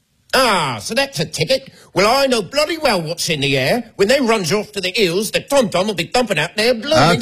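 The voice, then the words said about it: Cockney accent. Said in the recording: “You do a Cockney accent?”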